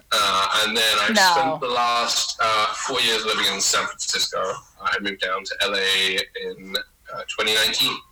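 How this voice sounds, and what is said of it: London English accent. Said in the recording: “originally from London, England, as you can tell probably from the accent.”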